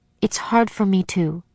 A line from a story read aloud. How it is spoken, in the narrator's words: she murmured